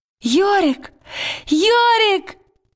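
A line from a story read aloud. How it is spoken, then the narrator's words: Joyful cry. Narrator (Russian): Лира радостно вскрикнула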